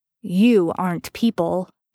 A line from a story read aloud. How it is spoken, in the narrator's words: Dean growled threateningly